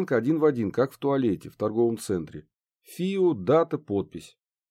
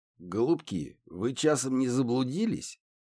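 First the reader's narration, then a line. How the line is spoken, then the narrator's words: Hoarse old muffled voice. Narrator (Russian): Хриплый старческий голос донесся из-под низко надвинутого капюшона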